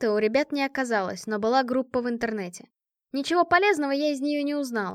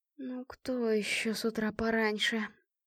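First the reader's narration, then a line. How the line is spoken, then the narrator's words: Mumbling. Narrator (Russian): пробормотала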